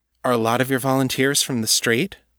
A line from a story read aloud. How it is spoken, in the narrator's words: Will asked